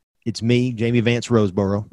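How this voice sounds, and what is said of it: Exaggerated country accent. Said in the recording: “your Jamie Vance Roseboro accent? It's a little country ... That's actually pretty good ... That might be a little too country on that line.”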